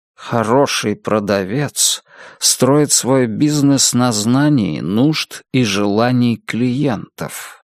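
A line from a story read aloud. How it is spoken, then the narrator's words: Quiet, hypnotic voice. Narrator (Russian): сказал мистер Гонт своим тихим, гипнотизирующим голосом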